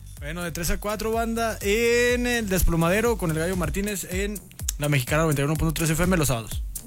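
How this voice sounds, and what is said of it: Radio announcer voice. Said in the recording (Spanish): “su voz de locutor ... Haz tu voz de locutor”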